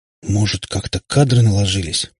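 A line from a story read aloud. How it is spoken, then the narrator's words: Stunned mumble. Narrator (Russian): пробормотала ошарашенная Катя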